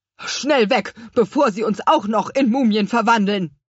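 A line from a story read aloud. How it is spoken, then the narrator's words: Calling out. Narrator (German): rief der Chef-Obstpflücker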